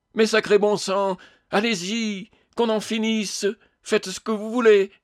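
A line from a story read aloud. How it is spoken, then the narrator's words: Bellowing ghost. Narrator (French): vociféra le fantôme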